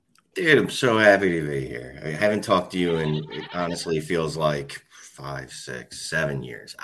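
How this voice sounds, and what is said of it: Philadelphia accent. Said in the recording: “You know this guy's voice. You know that Philly accent.”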